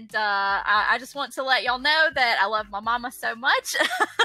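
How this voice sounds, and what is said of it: Strong Southern US accent. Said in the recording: “a very, very strong southern accent ... Alabama accent ... That's like the Forrest Gump accent”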